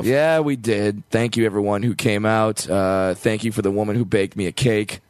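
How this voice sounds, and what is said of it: Slightly hoarse, worn-out voice. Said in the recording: “my voice is a little shot”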